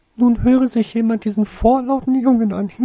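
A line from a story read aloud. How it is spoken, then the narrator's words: Giggling. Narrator (German): kicherte Flitwick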